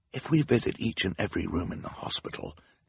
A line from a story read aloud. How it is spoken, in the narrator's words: Klaus whispered to his sister